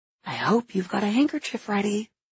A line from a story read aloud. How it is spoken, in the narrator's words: I whisper